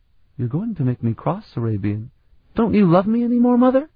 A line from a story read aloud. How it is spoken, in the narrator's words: His tone was excited and exhilarated